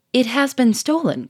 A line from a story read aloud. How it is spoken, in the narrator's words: cried